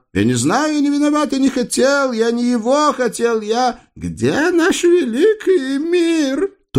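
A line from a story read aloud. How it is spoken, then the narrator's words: Shrill falsetto wail. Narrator (Russian): Тонким фальцетом в стиле автосигнализации взвыл визирь Шариях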